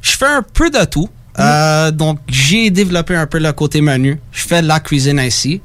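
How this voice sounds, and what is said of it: Strong regional accent. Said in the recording (French): “il y a un accent extraordinaire.”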